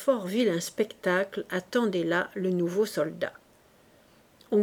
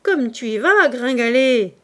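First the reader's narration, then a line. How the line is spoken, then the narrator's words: Canteen woman exclaiming. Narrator (French): s'écria la cantinière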